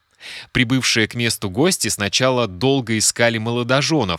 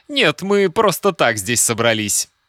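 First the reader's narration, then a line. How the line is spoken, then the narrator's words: Giggling reply. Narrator (Russian): Жених, хихикая, ответил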